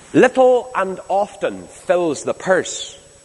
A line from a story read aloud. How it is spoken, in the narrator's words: said the wit